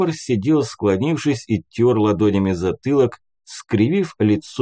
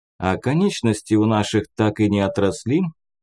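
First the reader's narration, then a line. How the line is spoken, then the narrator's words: Calm, unconcerned question. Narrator (Russian): спокойно поинтересовался Кир, будто новости о надвигающейся войне и не слышал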